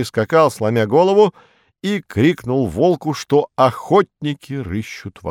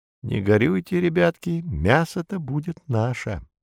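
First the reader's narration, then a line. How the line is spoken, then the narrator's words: Sad whisper. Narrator (Russian): Братцу-кролику, ох, как горько было расставаться со своей коровой, шепнул своим деткам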